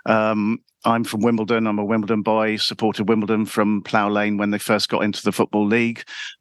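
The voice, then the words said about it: London accent. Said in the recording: “It's probably fairly obvious from my accent. I am a Londoner”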